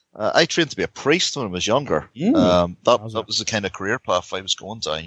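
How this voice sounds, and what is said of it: Northern Irish accent. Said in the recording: “you're brought up in Northern Ireland ... that's why I've got this fabulous accent”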